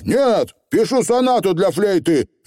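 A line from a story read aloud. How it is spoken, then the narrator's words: Barked retort. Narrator (Russian): рявкнул в ответ Роланд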